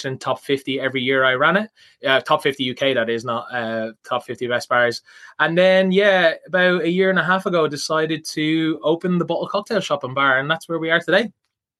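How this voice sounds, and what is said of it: Southwest Dublin Tallaght accent. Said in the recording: “I detect a north side accent... No, you're not actually. It's more southwest, I'd say. Tala accent.”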